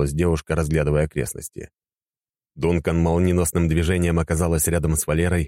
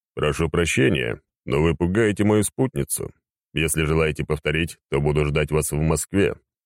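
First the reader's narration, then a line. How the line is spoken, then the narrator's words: Businesslike tone. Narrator (Russian): деловым тоном произнес он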